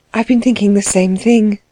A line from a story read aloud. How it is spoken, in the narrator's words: she said in a low voice